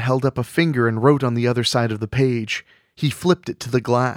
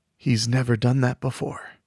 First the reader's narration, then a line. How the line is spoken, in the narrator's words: Mick whispered